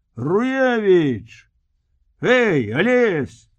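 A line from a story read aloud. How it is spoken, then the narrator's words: Shout from crowd. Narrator (Belarusian): крыкнуў хтосьці з натоўпу палонных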